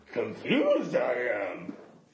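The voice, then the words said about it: Yoda-style character voice. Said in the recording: “I think that's your Yoda, not Bane.”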